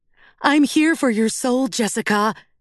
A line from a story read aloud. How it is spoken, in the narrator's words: she snarls